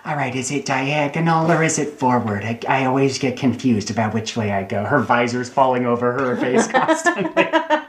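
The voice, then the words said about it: Jennifer Coolidge impression. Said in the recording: “your Jennifer Coolidge impression”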